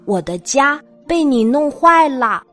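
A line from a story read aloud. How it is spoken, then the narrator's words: Loud shriek. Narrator (Chinese): 小鸟大声尖叫起来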